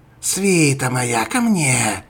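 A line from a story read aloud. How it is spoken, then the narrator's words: Growled. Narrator (Russian): зарычала мисс Гравет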